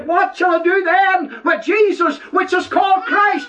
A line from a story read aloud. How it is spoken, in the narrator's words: Pilate cried out